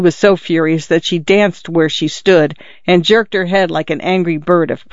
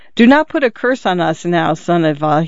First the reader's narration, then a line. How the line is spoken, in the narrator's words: said timidly